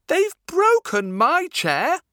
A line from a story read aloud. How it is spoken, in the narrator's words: cried Baby Bear